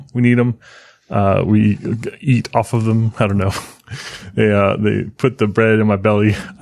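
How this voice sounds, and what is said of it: Polished podcast radio voice. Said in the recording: “This is my ... radio voice here. This is the voice that I use on the podcast ... Normally ... I just mostly just mumble ... you're getting Podcast”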